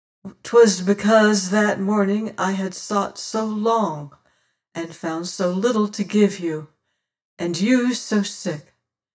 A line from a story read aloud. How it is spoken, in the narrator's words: sighed